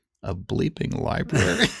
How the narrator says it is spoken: muttering to herself quietly under her breath

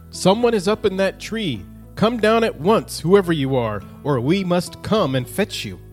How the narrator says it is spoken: one of the dwarfs called out

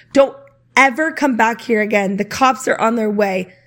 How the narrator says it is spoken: he screamed

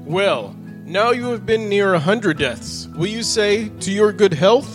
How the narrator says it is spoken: the king, whose fury was greater than ever, but who cried

